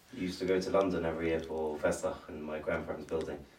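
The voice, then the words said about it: British accent. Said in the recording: “As I hear your accent, I'm reminded that he's British.”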